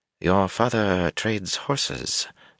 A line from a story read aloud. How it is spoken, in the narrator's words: Tuon murmured